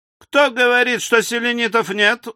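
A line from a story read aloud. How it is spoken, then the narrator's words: Menacing yell. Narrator (Russian): угрожающе завопил Мишель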